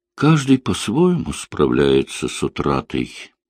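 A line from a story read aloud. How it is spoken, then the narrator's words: Quiet reply. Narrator (Russian): тихо ответила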